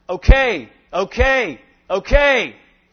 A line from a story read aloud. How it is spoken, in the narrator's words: shouting into the air